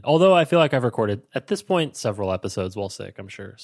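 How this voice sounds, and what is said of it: Congested, nasal cold voice. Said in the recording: “I'm still a little bit congested from having a cold last week ... I might sound like I have a cold ... my cold voice ... nasal”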